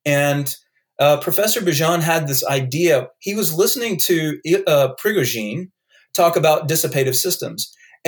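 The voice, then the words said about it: North Carolina accent. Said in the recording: “if you hear my accent, I have a North Carolina accent”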